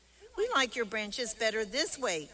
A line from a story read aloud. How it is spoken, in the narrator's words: chirped the birds